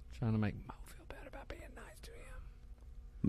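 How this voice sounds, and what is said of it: Whispering quietly. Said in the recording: “I can't even hear you. ... Why are you whispering that?”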